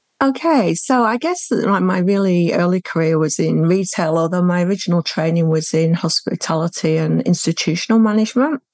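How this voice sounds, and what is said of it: Mild British accent. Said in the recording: “originally from the UK, if anyone hasn't already picked that up from your accent, which is pretty mild these days”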